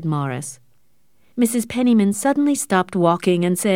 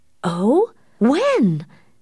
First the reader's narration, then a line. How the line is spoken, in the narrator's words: exclaimed Mrs